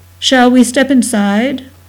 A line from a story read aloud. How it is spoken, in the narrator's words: the stranger said, his voice reedy and passionless with a core of iron